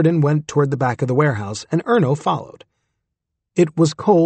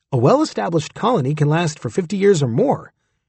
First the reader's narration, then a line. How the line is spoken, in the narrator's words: Erno said